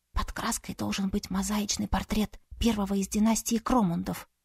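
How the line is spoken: Whispered. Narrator (Russian): шепнула Саяри

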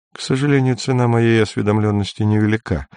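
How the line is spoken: Dry male speech. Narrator (Russian): сказал он сухо

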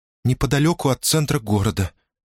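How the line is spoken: Quiet, slightly trembling. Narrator (Russian): тихим, слегка дрожащим голосом ответила та

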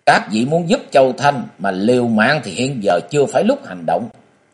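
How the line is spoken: Stern serious voice. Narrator (Vietnamese): Diệu Thủ Thư Sinh nghiêm giọng

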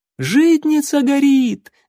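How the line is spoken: Alarmed woman shouting. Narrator (Russian): закричала какая-то женщина, заметив расползающиеся по крыше хранилища языки пламени

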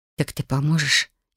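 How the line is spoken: Barely audible whisper, girl. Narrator (Russian): едва слышно прошептала девушка

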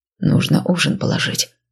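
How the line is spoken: Quiet. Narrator (Russian): тихо сказал он

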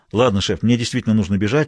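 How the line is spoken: Plain. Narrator (Russian): сказал он

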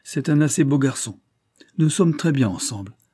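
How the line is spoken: Curt dry reply. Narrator (French): répondit sèchement le comte

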